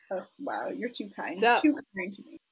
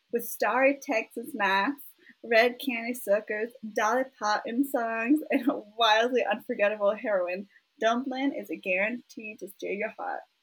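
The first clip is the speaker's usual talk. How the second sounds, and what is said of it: Exaggerated put-on Southern accent. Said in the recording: “That was so bad Southern accent. ... The Dolly, the Texas, the beauty queen pageants overtook me. ... I felt like you encapsulated everything I want out of a Southern accent.”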